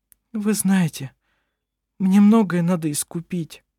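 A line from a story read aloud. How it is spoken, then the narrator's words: Choked, strained voice. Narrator (Russian): сказала она сдавленным голосом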